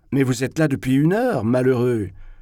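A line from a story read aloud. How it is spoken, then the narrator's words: Ironic mocking exclamation. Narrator (French): s'écria Zverkov d'une voix ironique, parce que, selon ses critères, cela devait vraiment être terriblement drôle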